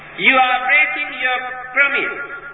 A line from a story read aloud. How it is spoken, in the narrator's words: shouted Mara